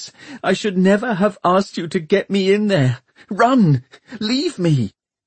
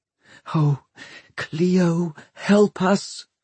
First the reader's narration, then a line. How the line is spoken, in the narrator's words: breathed Catherine